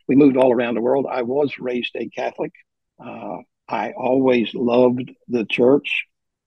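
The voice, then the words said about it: Southern American accent. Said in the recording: “we live in the South, and my accent will attest to that”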